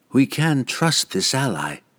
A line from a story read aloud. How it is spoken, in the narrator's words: Vierna replied calmly